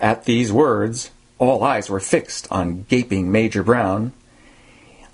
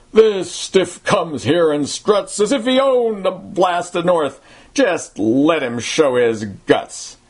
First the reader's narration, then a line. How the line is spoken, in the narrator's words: a roughneck bellowed forth